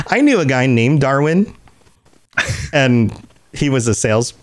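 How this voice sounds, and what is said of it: Usual voice. Nothing is said of it.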